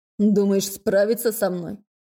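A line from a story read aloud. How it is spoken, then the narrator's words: Snorting. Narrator (Russian): Он хмыкнул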